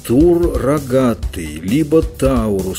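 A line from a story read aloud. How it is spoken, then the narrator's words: Toothless mumble. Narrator (Russian): прошамкала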